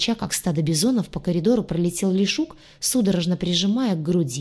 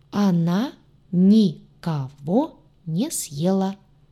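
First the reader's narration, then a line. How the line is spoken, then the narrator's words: Clipped, syllable by syllable. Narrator (Russian): По слогам отчеканил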